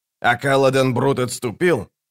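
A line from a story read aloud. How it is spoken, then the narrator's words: Snapping. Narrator (Russian): огрызнулся Локон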